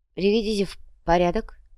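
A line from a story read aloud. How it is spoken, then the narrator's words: Breathed, witch. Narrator (Russian): выдохнула колдунья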